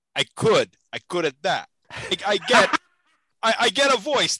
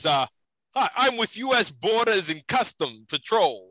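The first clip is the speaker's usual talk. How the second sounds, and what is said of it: Put-on New Jersey accent. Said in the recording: “you could do your best New Jersey accent.”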